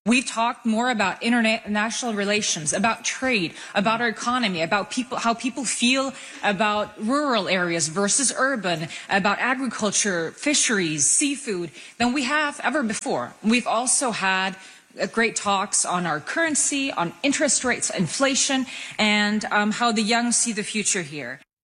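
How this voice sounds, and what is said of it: American-sounding accent. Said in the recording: “if you're wondering about her accent, yes, ... did study in the U.S.”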